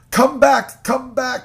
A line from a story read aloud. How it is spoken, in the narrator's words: he cried in grief